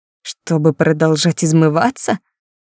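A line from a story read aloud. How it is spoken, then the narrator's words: Faint weak laughter. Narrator (Russian): Я смеялась, хотя, возможно, смех уже и не пробивался сквозь белеющие губы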